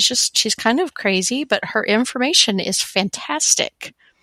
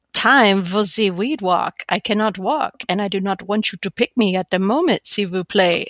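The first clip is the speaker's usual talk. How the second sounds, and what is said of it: Put-on French accent. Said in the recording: “she writes in a French accent,”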